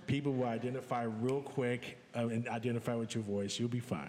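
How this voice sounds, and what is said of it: Deep, polished radio voice. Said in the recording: “You have the ultimate radio voice”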